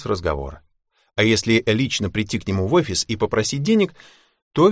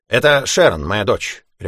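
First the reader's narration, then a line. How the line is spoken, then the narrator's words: Barked. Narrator (Russian): рявкнул он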